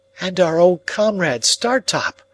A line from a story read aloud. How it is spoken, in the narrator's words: I cried